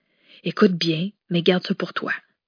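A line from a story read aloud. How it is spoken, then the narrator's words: Whisper. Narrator (French): chuchota Madeleine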